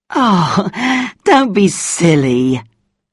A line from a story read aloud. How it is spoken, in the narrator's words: she laughed